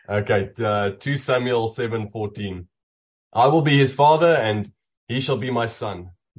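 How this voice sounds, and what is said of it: Strong non-American accent. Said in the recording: “I have to put my American accent on him ... please help everyone understand my accent”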